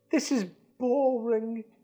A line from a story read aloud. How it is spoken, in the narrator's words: Dudley moaned